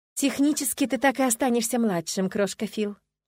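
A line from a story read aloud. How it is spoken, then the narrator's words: Affectionate. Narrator (Russian): ласково проговорила Эниме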